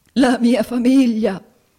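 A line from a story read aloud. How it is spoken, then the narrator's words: Sobbing. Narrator (Italian): singhiozzò il signor Squeers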